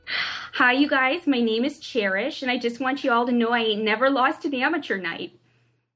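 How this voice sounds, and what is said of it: Minnesota accent character voice. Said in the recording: “my impression of a Minnesota stripper”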